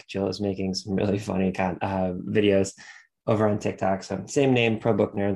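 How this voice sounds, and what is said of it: Stuffy, congested voice. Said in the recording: “if I sound a little stuffy. ... Allergies are destroying my sinuses right now.”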